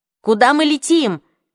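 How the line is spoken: Shout. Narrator (Russian): крикнула Марион

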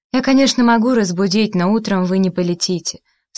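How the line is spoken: Calm woman. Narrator (Russian): спокойно сказала статная с прической дама-администратор

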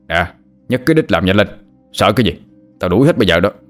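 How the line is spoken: Barked shout. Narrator (Vietnamese): người lái xe có vẻ là chủ mới quát lên

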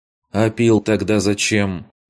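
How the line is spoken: Dry question. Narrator (Russian): Сухим голосом поинтересовалась та

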